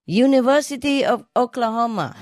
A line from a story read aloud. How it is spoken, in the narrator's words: He yelled back at her